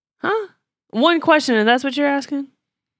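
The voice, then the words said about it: Judgmental, incredulous tone. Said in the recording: “Did you hear the judgment in my voice?”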